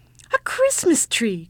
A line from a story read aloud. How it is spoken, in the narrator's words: cried the ugly child